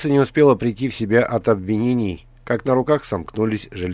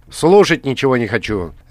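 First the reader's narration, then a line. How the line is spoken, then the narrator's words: Sharp interruption. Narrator (Russian): резко прервал его Златор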